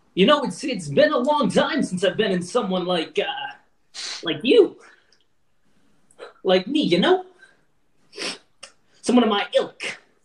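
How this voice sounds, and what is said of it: John Travolta impression. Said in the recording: “I had a fucking plan for this guy's accent and I totally, you know what? He's getting John Travolta.”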